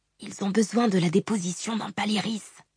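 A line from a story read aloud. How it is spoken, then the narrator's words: Quiet speech. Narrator (French): dit tout bas Jouchou à ses frères et sœurs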